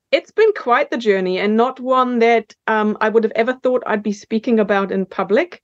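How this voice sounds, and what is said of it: German accent. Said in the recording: “So it is a German accent that you can never quite get out.”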